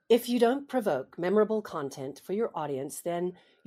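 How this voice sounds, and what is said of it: Put-on American accent. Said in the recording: “Speak with an American accent ... you pretending to be an American”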